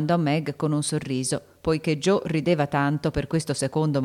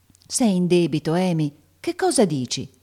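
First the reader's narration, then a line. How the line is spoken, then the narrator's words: Serious exclamation. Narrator (Italian): esclamò Meg seriamente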